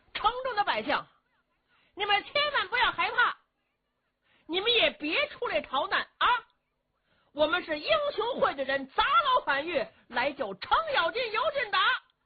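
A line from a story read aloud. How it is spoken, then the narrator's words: Shouting. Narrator (Chinese): 外边英雄会的人就喊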